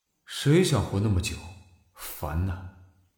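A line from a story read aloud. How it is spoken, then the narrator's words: Discontented grumbling mutter. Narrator (Chinese): 腰长天挺不满的撇嘴犯嘀咕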